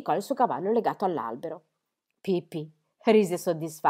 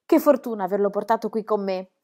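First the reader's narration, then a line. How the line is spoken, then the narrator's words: Exclaimed. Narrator (Italian): esclamò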